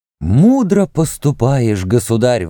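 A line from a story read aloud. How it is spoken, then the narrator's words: Exclamation. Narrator (Russian): воскликнул верховный писец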